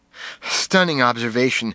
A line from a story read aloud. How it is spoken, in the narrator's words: I fumed, panting heavily